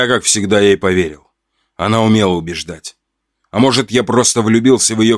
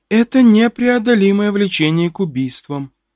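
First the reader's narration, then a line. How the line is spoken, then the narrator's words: Calm. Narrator (Russian): спокойно сказала Люда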